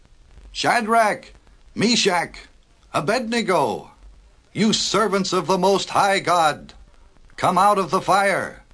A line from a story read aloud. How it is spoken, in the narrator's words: the king shouted into the flames